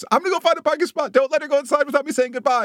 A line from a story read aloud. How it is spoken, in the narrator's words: Colette shouts